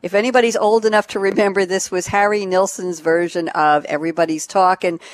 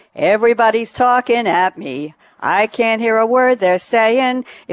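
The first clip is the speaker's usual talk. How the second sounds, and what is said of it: Lightly sung, lilting delivery. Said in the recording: “I'm going to try not to sing this, but I'll lilt a little bit.”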